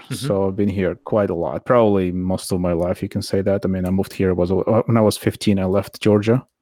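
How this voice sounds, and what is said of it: Slight foreign accent. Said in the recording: “this slight hint of an accent you've got”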